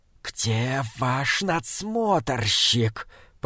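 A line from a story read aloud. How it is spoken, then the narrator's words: Hiss. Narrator (Russian): прошипел Прейроц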